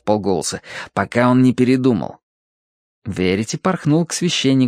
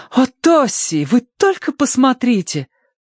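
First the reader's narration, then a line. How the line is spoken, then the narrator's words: Exclaim. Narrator (Russian): воскликнула она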